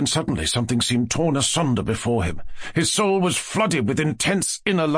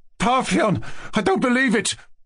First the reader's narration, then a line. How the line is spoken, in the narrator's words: he thought he cried out